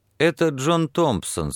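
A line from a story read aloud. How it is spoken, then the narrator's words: Plain. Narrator (Russian): сказал трактирщик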